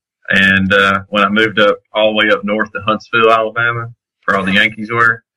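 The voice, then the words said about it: Southern Alabama accent. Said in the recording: “I used to think that I need to get rid of my accent, you know, when I was growing up down in Coleman, Alabama”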